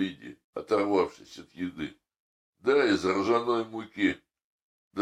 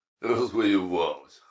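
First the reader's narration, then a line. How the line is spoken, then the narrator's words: Daughter scoffing. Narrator (Russian): хмыкнула дочь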